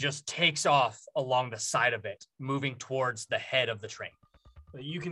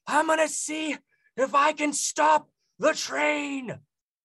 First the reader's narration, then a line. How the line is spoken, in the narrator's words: kind of yells